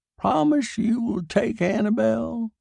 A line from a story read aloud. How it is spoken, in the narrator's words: croaked